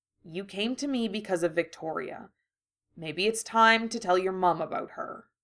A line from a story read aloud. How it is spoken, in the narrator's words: he said softly